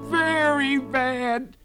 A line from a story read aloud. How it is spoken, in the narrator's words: cried the rabbit